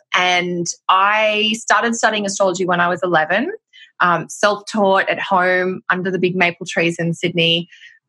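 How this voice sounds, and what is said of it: Australian accent, slightly mixed. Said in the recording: “I'm Australian, which will be obvious by my accent ... I sound like a mashup. When I'm in Australia, I don't sound Australian enough. But when I'm in Canada or the States, I don't sound anything like a North American.”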